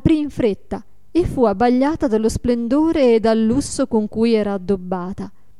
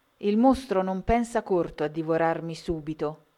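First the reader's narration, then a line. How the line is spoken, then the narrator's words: Plain. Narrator (Italian): disse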